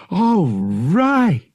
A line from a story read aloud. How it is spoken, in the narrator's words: Han cried, feeling a surge of relief